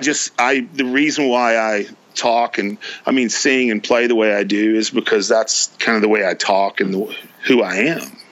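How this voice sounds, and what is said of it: Distinctive regional accent. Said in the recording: “is that really your accent”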